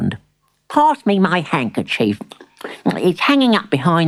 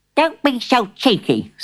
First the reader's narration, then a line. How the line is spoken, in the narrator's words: snapped Granny